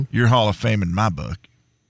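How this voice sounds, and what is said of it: Poor imitation of another person's voice. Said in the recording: “I also did a Denzel Washington. ... As Coach Boone. ... That's so bad. That is the worst impersonation I've ever heard.”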